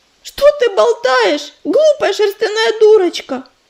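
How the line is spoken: Exclamation. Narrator (Russian): воскликнула белка

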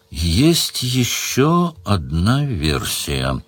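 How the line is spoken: Slow. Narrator (Russian): сказал Сварог медленно

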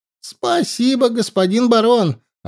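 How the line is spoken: Happy. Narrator (Russian): радостно сказал орк

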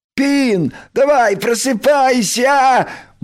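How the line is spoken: Cheerful shout. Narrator (Russian): Бодро прокричал Крош

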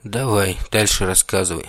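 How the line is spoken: Sighing. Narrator (Russian): вздохнул я

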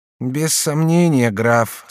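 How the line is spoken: Somewhat sad tone. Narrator (Russian): сказала Алоиза несколько печальным тоном

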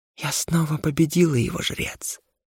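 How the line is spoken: Smiling whisper. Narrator (Russian): шепотом и, продолжая улыбаться, произнесла она

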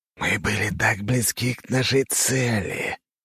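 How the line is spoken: Hissing. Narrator (Russian): произнес один, шипящим голосом

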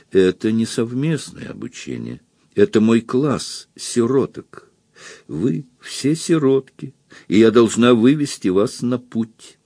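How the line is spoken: Sad, smiling. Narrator (Russian): леди Эстер грустно улыбнулась и сказала

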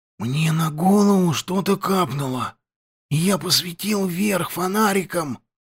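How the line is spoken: Whispered. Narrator (Russian): прошептал Петька

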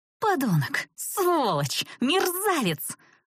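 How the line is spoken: Surprised shriek. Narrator (Russian): Завизжала она уже скорее удивленно, чем испуганно

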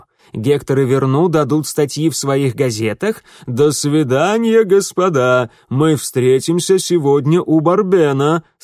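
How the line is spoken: Laughing. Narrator (Russian): сказал Фино, смеясь

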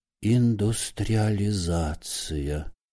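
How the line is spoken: Sorrowful old man's whisper. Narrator (Russian): горестно шептал он, шевеля бледными, как сырые котлеты, старческими губами

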